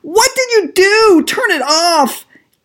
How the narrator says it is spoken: Jenny shrieked

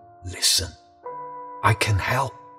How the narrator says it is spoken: It was as if they were whispering

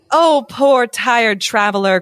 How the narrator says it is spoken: cried the witch maidens

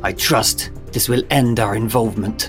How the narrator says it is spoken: the taller figure hissed

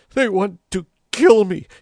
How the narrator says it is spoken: sobbed

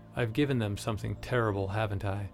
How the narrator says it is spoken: She said, her voice barely audible over the natural symphony

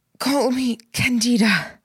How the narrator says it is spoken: Candida said between gasps for breath

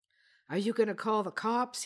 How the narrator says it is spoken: finally gasped

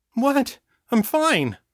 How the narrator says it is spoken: Danny insisted, hating the way her voice quavered as she spoke

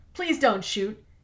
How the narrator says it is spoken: cried out

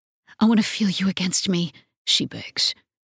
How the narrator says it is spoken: her voice breathy

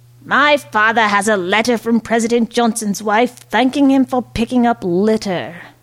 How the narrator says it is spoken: Ricky Hutton yelled out

